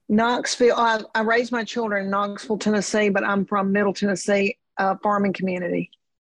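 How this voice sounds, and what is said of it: Tennessee accent. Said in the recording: “I love your accent so much.”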